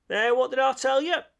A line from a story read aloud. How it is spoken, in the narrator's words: exclaimed the rat in great triumph